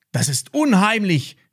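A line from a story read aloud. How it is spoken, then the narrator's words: Called out. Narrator (German): rief Max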